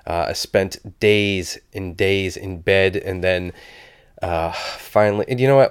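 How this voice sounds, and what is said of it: Voice sounding sick. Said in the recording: “I don't know if you can tell by my voice, but I have been sick as a dog”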